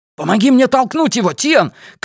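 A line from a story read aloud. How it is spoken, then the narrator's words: Shouting. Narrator (Russian): крикнул Эдди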